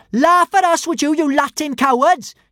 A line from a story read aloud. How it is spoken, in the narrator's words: cried